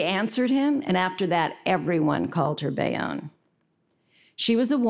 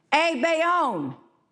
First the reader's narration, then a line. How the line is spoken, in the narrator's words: one of the other men at the table shouted